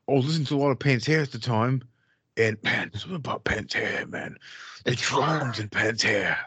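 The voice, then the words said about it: Imitates another person's accent. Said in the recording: “You nailed that accent. ... Oh, it's so good.”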